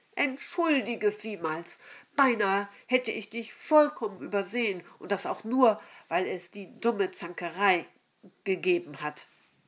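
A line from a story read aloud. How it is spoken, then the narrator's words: Loud. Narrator (German): sagte sie so laut, dass es alle hören konnten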